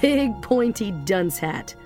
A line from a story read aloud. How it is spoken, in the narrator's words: Rando said, laughing,